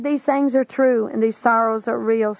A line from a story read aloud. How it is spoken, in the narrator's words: said Jesus